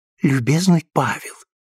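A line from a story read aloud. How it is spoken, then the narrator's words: Quiet. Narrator (Russian): тихонько сказала Луиза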